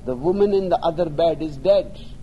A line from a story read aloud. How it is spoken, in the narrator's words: he cried